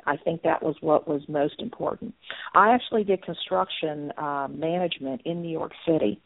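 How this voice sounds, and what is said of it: Southern American accent. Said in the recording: “you can tell a little bit by my accent that being from Southern Virginia”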